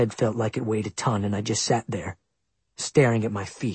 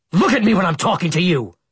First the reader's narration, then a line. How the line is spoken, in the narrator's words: he shouted